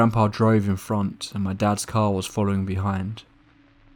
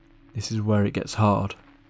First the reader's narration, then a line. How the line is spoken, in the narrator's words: muttering a prayer under her breath